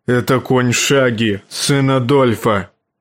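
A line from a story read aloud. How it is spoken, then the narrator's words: Growled. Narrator (Russian): рыкнул он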